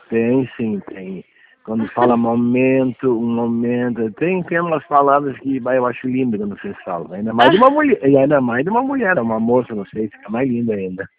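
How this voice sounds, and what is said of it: Southern Brazilian gaúcho accent. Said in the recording (Portuguese): “de onde que o senhor é, pelo sotaque ... É Tramandaí, Rio Grande do Sul ... eu tô percebendo pelo sotaque, é muito, muito, é diferente o sotaque”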